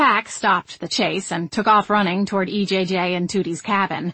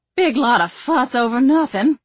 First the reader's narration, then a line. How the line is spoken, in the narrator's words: Tootie said with a sigh